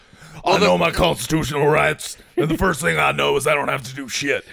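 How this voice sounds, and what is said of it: Imitates another person's voice. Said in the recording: “That's a pretty good impression.”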